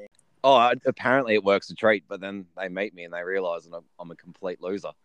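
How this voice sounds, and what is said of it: Australian accent. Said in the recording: “this is an Australian ... People here quite like the Australian accent ... the accent tricks them for so long ... you can play off the accent”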